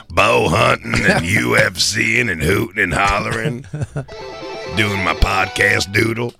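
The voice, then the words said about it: Imitates another person's voice. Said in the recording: “good Joe Rogan impression... You sound like Corey Feldman... one impression for everybody”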